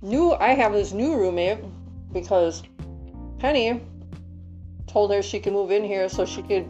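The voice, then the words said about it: Congested, stuffed-up voice. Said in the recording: “my allergies are fucking kicking my ass today. You probably hear it in my voice, too.”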